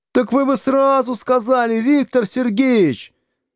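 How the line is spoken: Offended shout. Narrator (Russian): обиженно закричал 9-й Б

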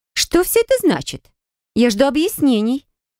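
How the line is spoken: High-pitched voice. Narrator (Russian): высоким голосом проговорила она

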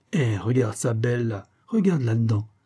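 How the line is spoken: Triumphant exclamation. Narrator (French): s'exclama-t-il triomphalement

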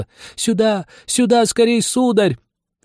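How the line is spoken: Shouting in a broken voice. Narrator (Russian): хозяйка, прерывающимся голосом, закричала

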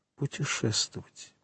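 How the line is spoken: Whispered. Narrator (Russian): прошептала госпожа Данглар

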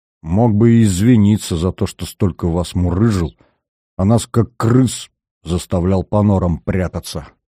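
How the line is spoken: Said through teeth. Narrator (Russian): Веня же процедил

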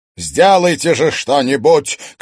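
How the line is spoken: Shouted. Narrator (Russian): крикнул мэр Белобров

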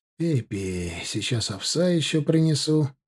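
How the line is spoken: Gentle affectionate speech. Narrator (Russian): проговорил ласково Тимофей

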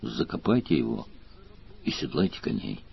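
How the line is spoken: Gruff mutter, pitying disgust. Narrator (Russian): Ощутив смешанную с отвращением жалость, Сварог буркнул

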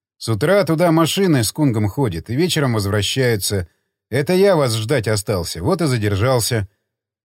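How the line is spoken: Calm. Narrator (Russian): Тот спокойно пропустил мимо ушей, ответив

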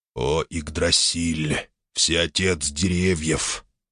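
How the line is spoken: Broken sad voice. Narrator (Russian): заговорил надломленно и грустно вихрь, кружащийся над мальцом

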